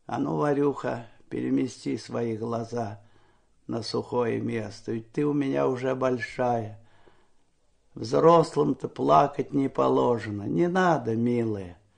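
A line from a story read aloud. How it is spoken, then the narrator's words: Quiet, encouraging, smiling. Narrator (Russian): ободряюще улыбался и тихо говорил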